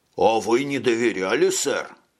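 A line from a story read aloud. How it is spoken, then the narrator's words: Plain. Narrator (Russian): спросил Шойбле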